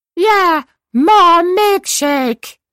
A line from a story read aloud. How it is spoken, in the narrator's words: bellowed the Dalai Lama